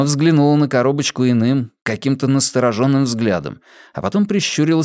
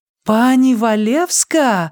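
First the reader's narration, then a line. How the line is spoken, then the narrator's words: Delighted squeal, mother. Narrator (Russian): восторженно взвизгнула мама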